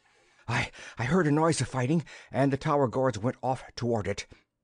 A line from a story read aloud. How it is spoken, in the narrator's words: gasped the Imlotuan captain